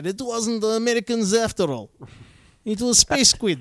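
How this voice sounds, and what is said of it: Put-on Russian accent. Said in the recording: “That's a good Russian accent. ... It's not bad. ... You sound like Sator from Tenet.”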